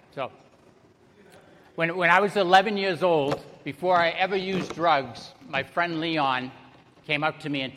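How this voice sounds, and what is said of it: Massachusetts accent. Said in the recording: “born and raised in Salem, Massachusetts. You can probably tell by the accent. ... So you probably hear that.”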